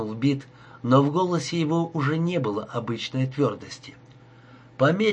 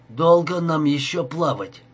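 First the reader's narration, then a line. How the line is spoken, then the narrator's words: Moaning. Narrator (Russian): простонал он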